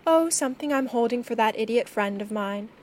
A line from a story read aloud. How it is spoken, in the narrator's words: she said